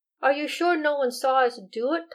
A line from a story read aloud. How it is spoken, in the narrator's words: Thomas asked